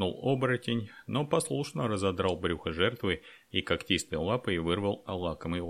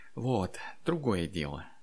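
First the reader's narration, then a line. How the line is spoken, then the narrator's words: Purring while eating greedily. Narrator (Russian): Мурлыкнула, жадно поглощая кровавые куски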